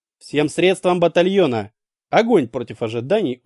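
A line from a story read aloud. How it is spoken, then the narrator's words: Calm, matter-of-fact. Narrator (Russian): Очень спокойно и даже буднично проговорил он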